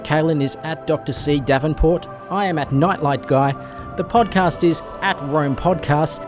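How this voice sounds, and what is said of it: Australian accent. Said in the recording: “my dulcet tones and my slightly sexy Australian accent”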